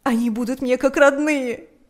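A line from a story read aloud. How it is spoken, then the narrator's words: Shouting through sobs. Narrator (Russian): кричала она сквозь рыдания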